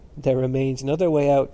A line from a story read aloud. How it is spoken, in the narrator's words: said Stephen, laughing